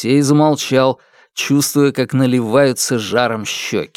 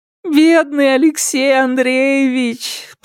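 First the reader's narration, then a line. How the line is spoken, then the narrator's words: Moan. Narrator (Russian): простонала она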